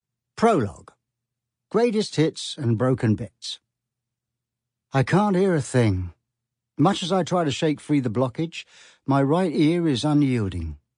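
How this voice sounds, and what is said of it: Very strong British accent. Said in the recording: “sounding so British, it's like he's doing it for a bet”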